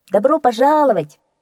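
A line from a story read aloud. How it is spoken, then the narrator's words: Chorus shouting. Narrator (Russian): хором прокричали ребята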